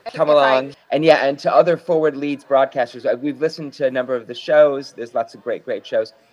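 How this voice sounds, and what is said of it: American Chicago accent. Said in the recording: “my Chicago accent”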